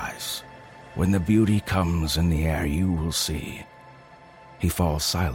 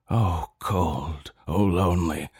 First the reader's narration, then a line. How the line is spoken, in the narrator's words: he groans